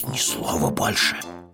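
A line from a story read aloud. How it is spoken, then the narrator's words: Hissed. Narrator (Russian): прошипел Пэтсон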